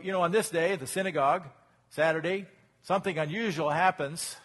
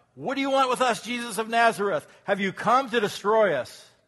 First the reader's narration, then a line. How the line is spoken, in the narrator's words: a man in their synagogue who was possessed by an impure spirit cried out